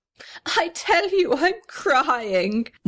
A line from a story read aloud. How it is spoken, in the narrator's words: wailed the little red house